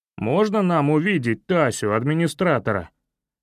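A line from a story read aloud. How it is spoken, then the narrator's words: Deep self-important voice. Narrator (Russian): пробасил Митя для важности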